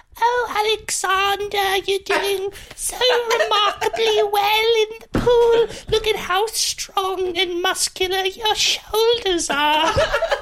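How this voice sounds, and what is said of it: Imitates another person's voice. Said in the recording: “a good Mia Goth impression”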